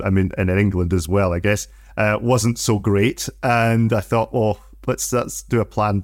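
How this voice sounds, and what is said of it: Scottish accent. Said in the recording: “I detect your accent's not from New Zealand ... I'm a sweaty sock”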